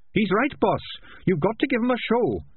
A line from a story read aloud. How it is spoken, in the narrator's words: said Sardines, dancing a few steps nervously